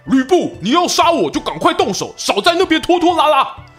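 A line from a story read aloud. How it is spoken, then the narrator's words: Brave shout. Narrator (Chinese): 纪灵 鼓起勇气大喊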